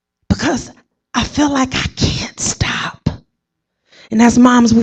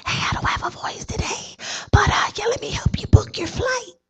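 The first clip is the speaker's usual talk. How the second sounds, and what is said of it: Whispering. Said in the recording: “I'm whispering”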